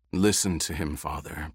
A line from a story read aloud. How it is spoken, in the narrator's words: Paul said in a low voice